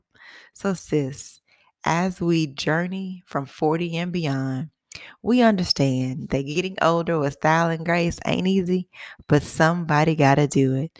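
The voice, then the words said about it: Slightly raspy voice. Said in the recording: “my voice is a little bit raspier than usual”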